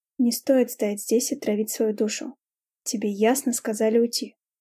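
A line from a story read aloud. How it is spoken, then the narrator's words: Calm reminder. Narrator (Russian): спокойно напомнил Кристиан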